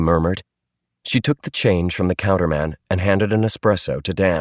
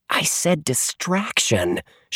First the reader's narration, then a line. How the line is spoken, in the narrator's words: she hissed